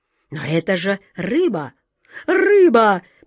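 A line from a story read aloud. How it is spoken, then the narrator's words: Near-desperate exclamation. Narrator (Russian): почти с отчаянием воскликнула атаман Джина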